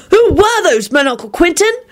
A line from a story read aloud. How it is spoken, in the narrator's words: Timothy hollered out jubilantly